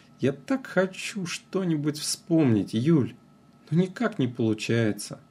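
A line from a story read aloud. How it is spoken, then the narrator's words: Sad. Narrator (Russian): печально сказал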